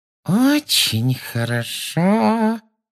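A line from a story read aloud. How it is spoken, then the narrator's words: Menacing sugary voice. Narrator (Russian): сказала она своим самым угрожающим приторным голоском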